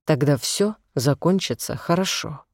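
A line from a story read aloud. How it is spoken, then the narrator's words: Soft repetition. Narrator (Russian): мягко повторил он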